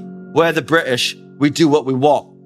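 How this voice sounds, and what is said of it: Put-on British accent. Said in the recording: “That was a good British accent, everyone, right? That was good, right?”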